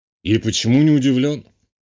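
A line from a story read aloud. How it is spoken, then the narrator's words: Snorting colonel. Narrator (Russian): хмыкнул полковник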